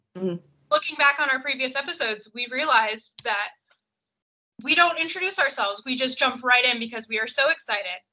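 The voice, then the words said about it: American accent. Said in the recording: “I have the American accent.”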